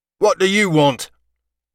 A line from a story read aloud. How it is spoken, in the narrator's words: shouted the man